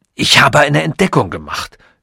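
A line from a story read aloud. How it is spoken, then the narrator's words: Sudden hoarse blurt. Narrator (German): stieß plötzlich mit heiserer Stimme hervor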